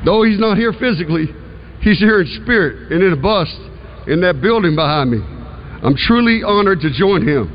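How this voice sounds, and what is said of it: Slight Southern American country accent. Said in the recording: “he sounded country ... A little southern ... A little country to me”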